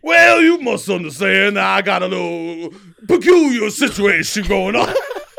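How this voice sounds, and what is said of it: Deep Southern cartoon character voice. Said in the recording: “South... Hoghorn, Leghorn... That sounds like it comes from like the fucking depths of your soul... That's the only accent I could do. That's my best accent... And I crush it.”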